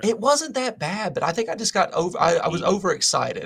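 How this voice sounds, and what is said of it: Speaks with a noticeable accent. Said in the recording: “obviously the accent hasn't left”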